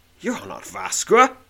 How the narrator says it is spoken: sneers one of the guards

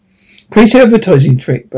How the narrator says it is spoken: Bernard said

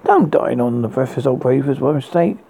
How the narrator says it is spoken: cried

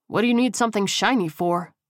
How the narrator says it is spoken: Miles asked

